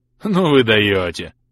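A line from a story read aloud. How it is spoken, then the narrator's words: Speaking through laughter. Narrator (Russian): проговорил он сквозь смех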